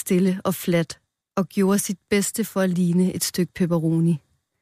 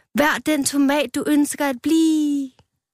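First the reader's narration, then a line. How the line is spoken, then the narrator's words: Shouting. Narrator (Danish): råbte han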